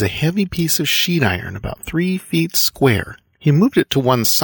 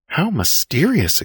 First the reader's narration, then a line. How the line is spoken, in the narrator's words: exclaimed Muriel